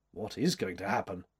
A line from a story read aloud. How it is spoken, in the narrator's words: asked gravely